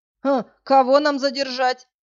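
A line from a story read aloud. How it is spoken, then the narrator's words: Chuckling guard. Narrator (Russian): хохотнул охранник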